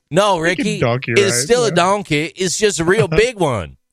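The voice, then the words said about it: Put-on accent imitating a guide. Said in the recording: “Why are we doing that accent for the Grand Canyon? ... Because that's how the guy talked.”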